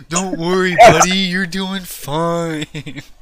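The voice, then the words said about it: Cartoon character voice impression. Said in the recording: “That was a good impression ... another Patrick”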